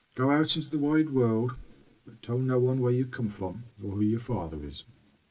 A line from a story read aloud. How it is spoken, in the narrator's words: The father sadly said